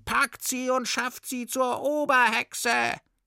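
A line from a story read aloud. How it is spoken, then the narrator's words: Many witches screaming. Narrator (German): schrien alle Hexen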